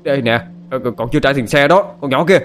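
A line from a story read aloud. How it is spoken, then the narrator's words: Man shouting while running. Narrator (Vietnamese): Ông tài xế chạy theo hét lên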